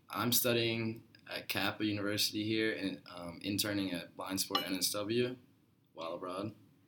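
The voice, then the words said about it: American accent. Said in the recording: “we may sound a little strange to you with our accents. That's because we are both from America.”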